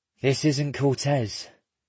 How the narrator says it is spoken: Oshiro sighs

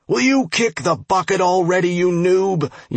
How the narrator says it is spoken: yelled the dwarf

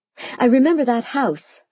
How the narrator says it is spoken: I cried, bouncing in my seat

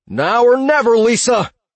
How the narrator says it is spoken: he yelled

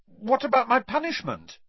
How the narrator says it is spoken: blurted Harry

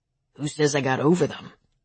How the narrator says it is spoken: He said softly

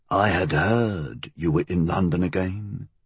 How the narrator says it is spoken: he said quietly

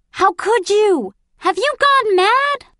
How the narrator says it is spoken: A female voice shrieked

